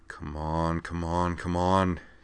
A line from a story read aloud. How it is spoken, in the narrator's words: he muttered